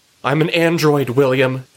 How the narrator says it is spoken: she shouts

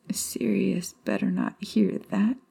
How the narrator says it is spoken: she mumbled

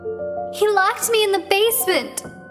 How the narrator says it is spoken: she sobbed

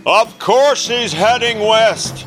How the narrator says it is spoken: Carl yelled, his frustration boiling over

